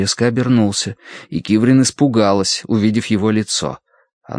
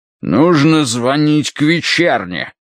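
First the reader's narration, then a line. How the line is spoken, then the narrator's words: Barked. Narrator (Russian): рявкнул он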